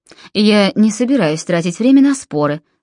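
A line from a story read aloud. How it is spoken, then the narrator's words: Dry. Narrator (Russian): сухо сказал Нимрод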